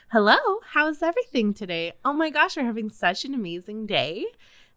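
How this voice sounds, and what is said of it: Higher-pitched, overly cheerful phone voice. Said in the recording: “You have to talk in a higher pitch. So it's like your phone voice.”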